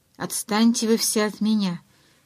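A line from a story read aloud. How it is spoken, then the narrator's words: Growl. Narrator (Russian): рыкнул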